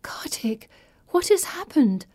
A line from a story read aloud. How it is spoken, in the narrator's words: I whisper